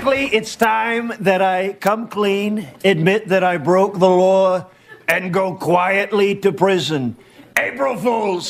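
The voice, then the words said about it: Imitates another person's voice. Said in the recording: “Trump impersonation is really good”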